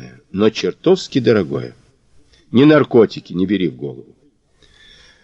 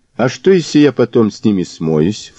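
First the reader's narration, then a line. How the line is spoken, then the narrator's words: Snorting. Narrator (Russian): фыркнул Мазур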